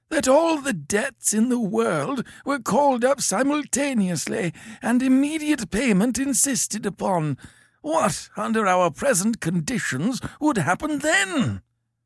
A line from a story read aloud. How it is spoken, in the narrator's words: cried with a feeble violence